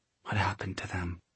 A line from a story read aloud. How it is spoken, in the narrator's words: Tessa whispered